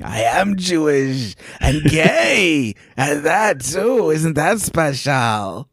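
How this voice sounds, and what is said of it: Old man character voice. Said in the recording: “He sounds like an old Jewish man.”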